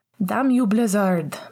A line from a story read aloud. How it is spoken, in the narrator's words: Pascal yelled